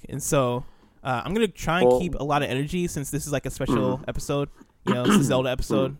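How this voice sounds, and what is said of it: Slightly sick-sounding voice. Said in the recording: “I'm kind of sick. If you're listening, you can maybe hear it in my voice a little bit.”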